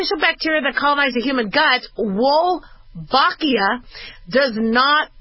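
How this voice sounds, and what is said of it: Usual voice. Nothing is said of it.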